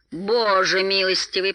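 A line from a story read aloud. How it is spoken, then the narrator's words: Groaning. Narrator (Russian): простонал Беорн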